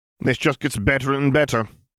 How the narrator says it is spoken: Selwyn chuckled humorlessly

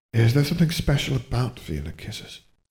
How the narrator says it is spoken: Harry sighed

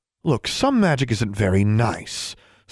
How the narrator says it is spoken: Sue said in a slightly more placating tone

